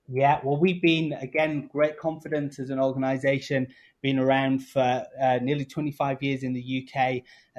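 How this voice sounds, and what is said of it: British accent. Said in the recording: “I'm hearing a British accent”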